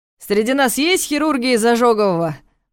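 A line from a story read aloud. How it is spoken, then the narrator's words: Loud question. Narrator (Russian): громко спросил Николаев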